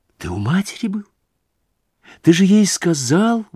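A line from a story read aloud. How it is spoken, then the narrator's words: Horrified exclamation. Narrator (Russian): в ужасе воскликнула Дуня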